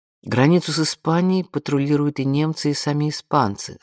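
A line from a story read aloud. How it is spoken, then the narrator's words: Plain. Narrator (Russian): сказала Анук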